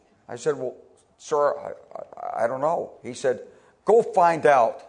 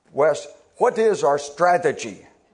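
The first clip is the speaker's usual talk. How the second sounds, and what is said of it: Imitated Polish accent, General Shalikashvili. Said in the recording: “with his Polish accent”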